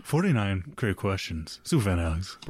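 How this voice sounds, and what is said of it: Radio announcer voice. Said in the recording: “has to say it like that every time for some fucking reason. ... It's my radio voice.”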